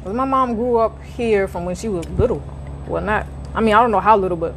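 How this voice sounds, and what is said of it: Heavy accent, not southern. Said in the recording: “your accent is very heavy. You never took on a southern accent ... you don't have a southern accent at all”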